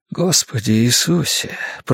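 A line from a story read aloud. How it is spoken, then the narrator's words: Whisper. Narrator (Russian): прошептал я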